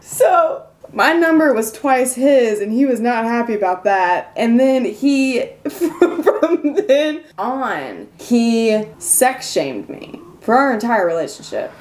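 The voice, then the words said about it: Country twang. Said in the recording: “I have this country twang that I'm trying to keep.”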